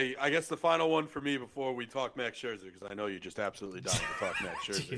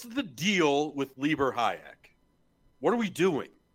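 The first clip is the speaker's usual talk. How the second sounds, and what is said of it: George Costanza impression. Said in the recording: “my best George Costanza impression”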